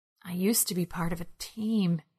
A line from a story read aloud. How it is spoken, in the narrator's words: he whispered